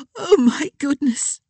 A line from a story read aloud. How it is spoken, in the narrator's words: she gasped